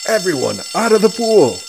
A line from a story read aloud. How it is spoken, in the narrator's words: A fire alarm sounds, and the coach yells